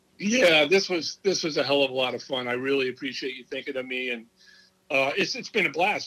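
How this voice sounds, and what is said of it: Hoarse, worn-out voice. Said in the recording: “You got me where I've even lost my voice.”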